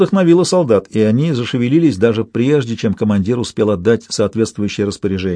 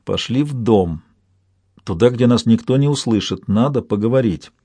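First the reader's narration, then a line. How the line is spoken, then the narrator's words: Whisper in the ear. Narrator (Russian): Чейт прошептал на ухо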